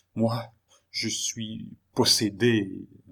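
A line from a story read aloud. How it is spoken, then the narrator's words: Murmuring woman. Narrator (French): murmura-t-elle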